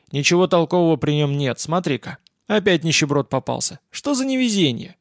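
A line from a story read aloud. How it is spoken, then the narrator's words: Calm announcement. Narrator (Russian): Спокойно объявил Василий Семенович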